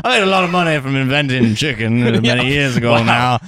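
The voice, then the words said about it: Put-on regional accent. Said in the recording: “you really thought that the accent would just lead you somewhere”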